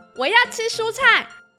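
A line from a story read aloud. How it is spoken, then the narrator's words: Very loud. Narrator (Chinese): 太大声了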